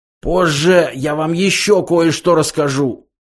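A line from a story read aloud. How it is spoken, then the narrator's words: Hoarse rasping voice. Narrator (Russian): прохрипел Зафот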